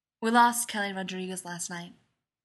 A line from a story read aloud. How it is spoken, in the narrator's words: he murmurs